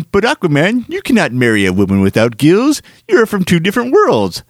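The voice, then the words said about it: Uncanny Comic Book Guy imitation. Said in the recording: “That is an uncanny imitation of the comic book guy.”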